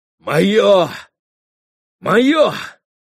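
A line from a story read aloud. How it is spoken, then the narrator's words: Exclamation. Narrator (Russian): воскликнул Митя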